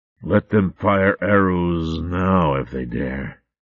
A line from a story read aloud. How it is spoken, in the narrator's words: rasped